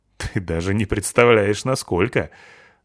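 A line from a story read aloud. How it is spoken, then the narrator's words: Laughing. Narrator (Russian): засмеялся чему-то Петрович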